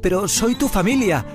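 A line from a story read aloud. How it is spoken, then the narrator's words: Shouting. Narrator (Spanish): gritó Miguel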